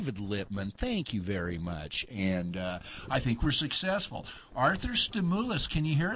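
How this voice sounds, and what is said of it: Usual voice. Nothing is said of it.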